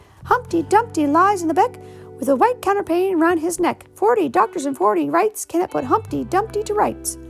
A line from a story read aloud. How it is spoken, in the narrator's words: laughing and shouting